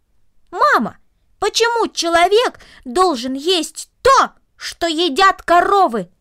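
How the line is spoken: Loud, raised voice. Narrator (Russian): Повысив голос, он громко повторил

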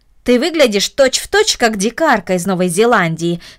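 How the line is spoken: Plain. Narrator (Russian): сказала тетя

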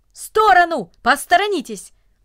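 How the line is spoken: Brisk businesslike shout. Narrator (Russian): Деловито, как будто у него было какое-то срочное дело, … закричал людям

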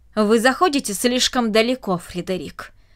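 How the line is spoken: Irritated. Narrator (Russian): раздраженно произнесла она

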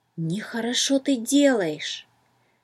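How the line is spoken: Whisper in the ear. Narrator (Russian): словно шепнул кто-то на ухо

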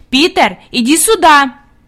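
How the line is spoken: Commanding shout. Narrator (Russian): Хади крикнула повелительным тоном

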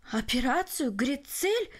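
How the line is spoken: Exclamation. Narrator (Russian): воскликнул Барелл

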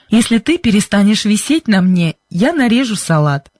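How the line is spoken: Said, then laughing. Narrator (Russian): сказал он и засмеялся

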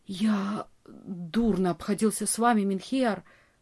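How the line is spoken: Whisper. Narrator (Russian): прошептал он

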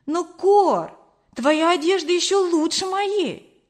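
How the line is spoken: Exclaimed. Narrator (Russian): воскликнула я

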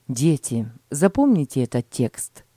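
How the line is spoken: Plain. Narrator (Russian): сказал отец

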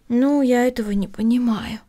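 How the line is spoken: Sighing. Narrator (Russian): вздохнула Эми

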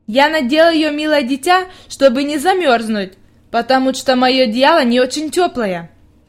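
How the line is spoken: Plain. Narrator (Russian): ответила она

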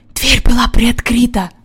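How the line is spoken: Whispering. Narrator (Russian): прошептал Джон

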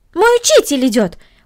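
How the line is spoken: Exclaiming. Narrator (Russian): воскликнула Корнелли

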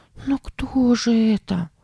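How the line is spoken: Frightened question. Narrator (Russian): спросила Сара испуганно

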